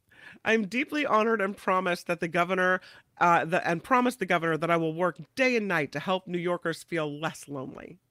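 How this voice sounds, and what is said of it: Imitates another person's voice. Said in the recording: “I don't know if I can do her accent.”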